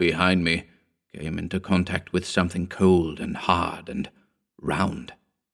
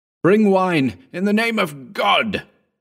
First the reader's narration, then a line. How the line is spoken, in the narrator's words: I cried, staggering